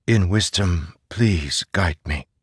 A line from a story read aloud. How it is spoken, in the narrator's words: he whispered